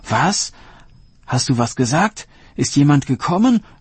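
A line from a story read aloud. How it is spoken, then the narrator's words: Called out. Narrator (German): rief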